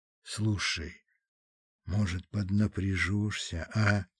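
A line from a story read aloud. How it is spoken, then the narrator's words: Quiet. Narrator (Russian): тихо сказал он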